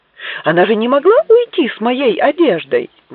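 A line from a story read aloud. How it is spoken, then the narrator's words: Exclaimed. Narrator (Russian): воскликнул Флетч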